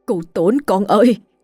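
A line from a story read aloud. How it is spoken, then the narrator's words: Sudden shout. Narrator (Vietnamese): Ông hai lập tức hét lên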